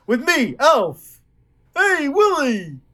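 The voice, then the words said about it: Imitates the cartoonish voice of Alf. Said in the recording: “my Alf impression ... Oh, that's pretty good”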